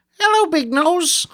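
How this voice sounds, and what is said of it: Imitates another person's voice, badly. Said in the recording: “That's a really bad impression.”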